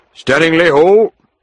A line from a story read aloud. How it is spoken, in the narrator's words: the driver shouted